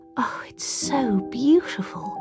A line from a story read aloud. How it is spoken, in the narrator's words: Charlie breathed, feeling tears in her eyes